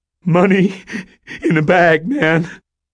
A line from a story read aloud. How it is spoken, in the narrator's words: panted